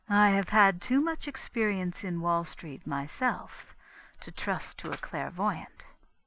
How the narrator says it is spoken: confessed Constance quietly

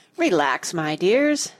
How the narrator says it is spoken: said the apple kindly

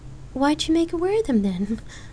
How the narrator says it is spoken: Lark asked, chuckling

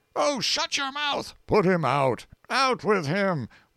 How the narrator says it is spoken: Wolf stops reading a moment to shout at Dr

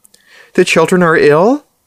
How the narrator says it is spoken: Monty gave out a fine sham of Grinder's laugh, the one he used when dealing with proper people, with the cruelty barely plastered over

